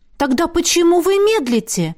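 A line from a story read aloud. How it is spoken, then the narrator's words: Stunned exclamation. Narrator (Russian): ошарашенно воскликнула Лесли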